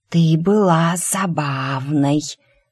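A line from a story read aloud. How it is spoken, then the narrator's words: Quiet hiss. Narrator (Russian): раздалось негромкое шипение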